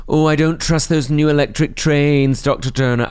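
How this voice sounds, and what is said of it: Flirty put-on Scottish Morningside accent. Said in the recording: “Why do you do it in such a flirty way? ... the only type of Scottish accent I can do, a slightly, slightly overtly sexualised Morningside housewife ... Such an insulting accent.”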